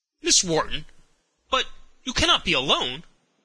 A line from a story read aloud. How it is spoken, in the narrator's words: exclaimed with some uneasiness